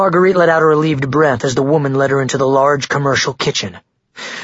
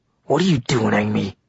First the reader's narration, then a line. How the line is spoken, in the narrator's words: he asked in a growling tone